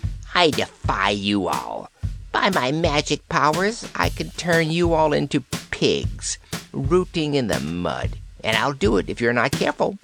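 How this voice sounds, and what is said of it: Scornful old witch voice. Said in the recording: “in a scornful voice”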